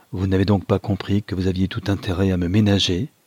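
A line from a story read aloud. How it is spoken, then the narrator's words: Plain. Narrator (French): dit-il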